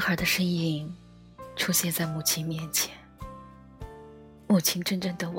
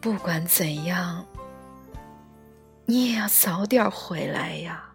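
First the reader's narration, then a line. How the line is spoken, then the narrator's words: Murmuring to herself. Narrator (Chinese): 喃喃的自语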